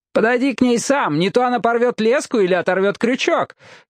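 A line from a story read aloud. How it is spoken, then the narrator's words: Shout. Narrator (Russian): крикнул Домнал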